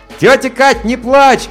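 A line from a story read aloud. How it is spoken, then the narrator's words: Shout. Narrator (Russian): крикнул я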